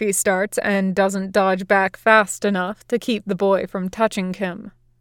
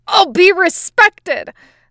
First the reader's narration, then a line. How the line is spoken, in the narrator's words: the boy yells